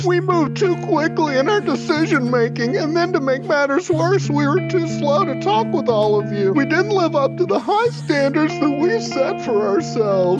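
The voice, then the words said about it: Imitates another person's voice. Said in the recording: “great impression ... keep reading the quote and keep doing the bit”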